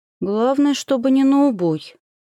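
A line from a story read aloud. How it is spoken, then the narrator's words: Grumbled. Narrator (Russian): буркнула я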